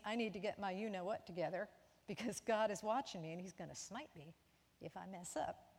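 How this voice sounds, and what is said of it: Put-on Southern American accent. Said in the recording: “I said that with a southern accent”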